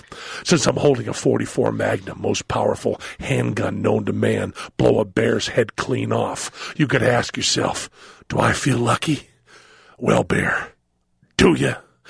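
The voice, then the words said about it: Imitates another person's voice. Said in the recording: “How was my Clint Eastwood impersonation? ... It was pretty good.”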